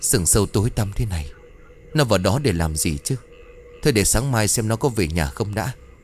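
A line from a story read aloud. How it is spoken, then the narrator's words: Cold, shivering old man. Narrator (Vietnamese): Ông bốn trong mảnh áo mỏng cả người cũng đang rét căm căm run rẩy nói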